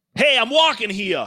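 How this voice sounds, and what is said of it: Put-on Boston accent. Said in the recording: “my impression of someone from Boston”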